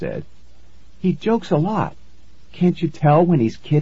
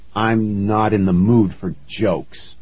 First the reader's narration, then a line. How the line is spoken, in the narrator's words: I grumbled